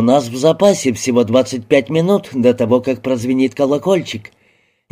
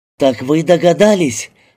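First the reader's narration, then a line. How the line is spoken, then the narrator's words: Exclamation. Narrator (Russian): воскликнула мисс Гарбель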